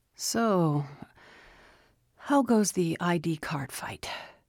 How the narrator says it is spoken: Shane asked, his voice thin and weary

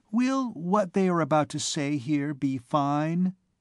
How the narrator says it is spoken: inquired Gisquette timidly

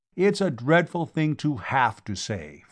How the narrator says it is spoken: Fawzi replied

